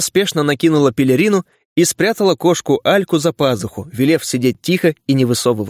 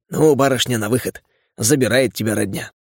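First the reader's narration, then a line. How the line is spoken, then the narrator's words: Pleased smiling whisper. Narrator (Russian): Не скрывая удовольствия, он широко улыбнулся и шепнул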